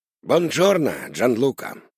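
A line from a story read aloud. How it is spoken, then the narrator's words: Greeting. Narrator (Russian): поздоровался папа Карло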